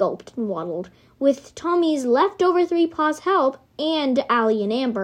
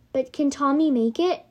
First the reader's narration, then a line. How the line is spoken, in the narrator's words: Amber said